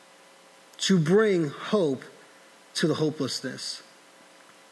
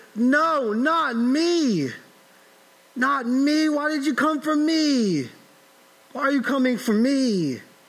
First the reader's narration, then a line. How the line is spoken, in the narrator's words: does your heart scream